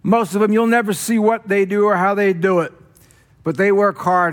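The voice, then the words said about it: Loud voice, New Jersey accent. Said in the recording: “my loud voice, my Jersey accent”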